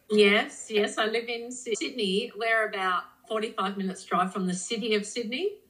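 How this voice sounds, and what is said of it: Australian accent. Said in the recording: “you don't have an English accent at all. So it's definitely more Australian.”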